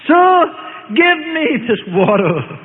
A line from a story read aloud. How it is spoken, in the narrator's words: her longing for peace from her guilt, carried by emotions of hope, cried out